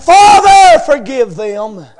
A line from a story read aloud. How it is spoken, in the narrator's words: still cried out